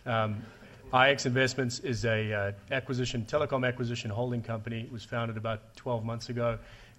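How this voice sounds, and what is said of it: Noticeable foreign accent. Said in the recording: “I'm the guy with the funny accent”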